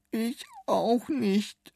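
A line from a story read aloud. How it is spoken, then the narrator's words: Sobbing. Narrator (German): schluchzte William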